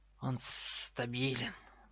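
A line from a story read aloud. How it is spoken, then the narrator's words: Hissing. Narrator (Russian): прошипел Гарри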